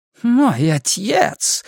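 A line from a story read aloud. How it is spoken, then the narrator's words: Laughing. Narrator (Russian): смеялся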